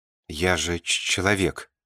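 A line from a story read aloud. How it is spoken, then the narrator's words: Stammering. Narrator (Russian): заикаясь, бросил Ленька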